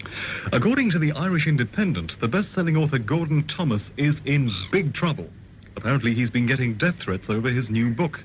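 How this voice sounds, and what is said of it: Accent with distinctive A vowels. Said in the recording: “it's my accent, you know. The way I pronounce my A's.”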